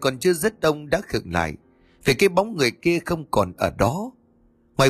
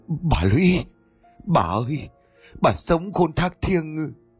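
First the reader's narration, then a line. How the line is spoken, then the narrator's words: Old man, shaken, breathless. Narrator (Vietnamese): Ông trưởng thôn bàng hoàng run rẩy bằng một giọng nói như sắp đứt hơi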